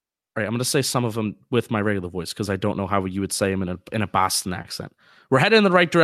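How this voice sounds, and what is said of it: Usual voice. Nothing is said of it.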